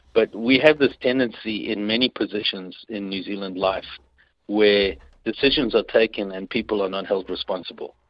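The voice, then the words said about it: Foreign accent. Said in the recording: “my accent might still betray where I come from”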